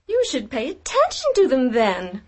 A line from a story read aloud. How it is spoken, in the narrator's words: her godmother said irritably